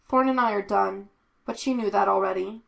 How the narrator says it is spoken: Kane said evenly

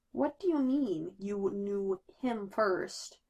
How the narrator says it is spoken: Bruce asks slowly

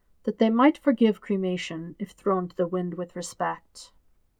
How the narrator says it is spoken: Iroh tells him very gently

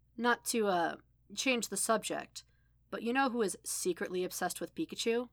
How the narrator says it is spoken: she said

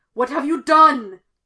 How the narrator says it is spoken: Sidious roared

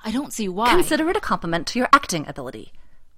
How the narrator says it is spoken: Watson snaps

